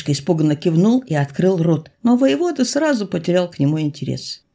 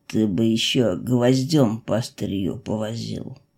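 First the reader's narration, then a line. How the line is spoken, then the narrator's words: Displeased grumble. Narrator (Russian): недовольно пробурчал он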